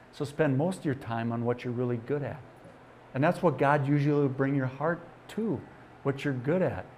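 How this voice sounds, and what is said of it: Upper Midwest Wisconsin accent. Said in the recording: “are you from Minnesota? ... Close, I'm from Wisconsin. ... I could tell your accent. ... it's still there”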